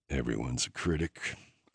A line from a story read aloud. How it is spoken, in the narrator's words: I muttered